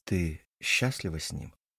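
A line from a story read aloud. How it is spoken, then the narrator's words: Intimate close whisper. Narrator (Russian): прошептал ей в волосы, чтобы только она могла меня услышать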